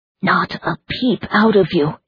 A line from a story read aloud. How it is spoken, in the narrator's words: he breathed